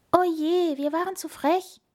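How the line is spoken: Wailing. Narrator (German): jammerte der Igel

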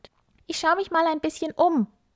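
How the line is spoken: Calling out. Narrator (German): ruft er seiner Mama zu

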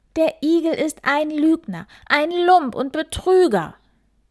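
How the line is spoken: Furious loud shouting. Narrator (German): der Hase wütend, so wütend, dass er laut in den Wald schrie

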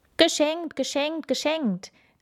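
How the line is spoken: Eager calling out. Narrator (German): rief er, kaum dass er die Kinder sah

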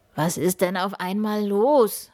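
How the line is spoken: Calling out. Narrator (German): ruft er

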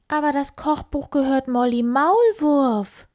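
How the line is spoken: Calling out. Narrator (German): ruft sie

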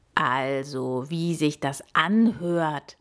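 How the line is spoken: Croaking. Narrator (German): krächzte er

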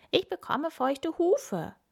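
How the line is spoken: Called out. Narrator (German): ruft Kim

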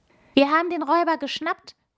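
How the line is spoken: Excited call. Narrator (German): ruft Emi aufgeregt

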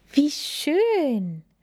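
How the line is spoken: Call. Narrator (German): rief Lilly

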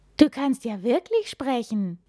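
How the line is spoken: Astonished exclamation. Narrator (German): ruft Henry verblüfft

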